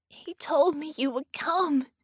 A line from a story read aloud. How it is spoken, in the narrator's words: half-sobbed